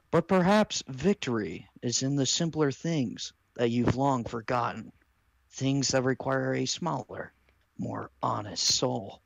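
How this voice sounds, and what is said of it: Bob Ross impression. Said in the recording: “why do you sound like Bob Ross? ... I'm fine with ... being Bob Ross.”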